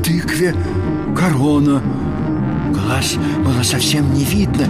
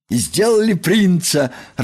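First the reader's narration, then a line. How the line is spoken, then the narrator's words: Joyful. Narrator (Russian): радостно сообщил Крош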